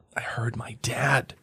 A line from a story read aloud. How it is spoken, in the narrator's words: Harry mumbled